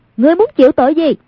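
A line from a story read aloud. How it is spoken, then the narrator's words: Composed stern shout. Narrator (Vietnamese): Nhưng trên mặt vẫn không động thanh sắc, quát lên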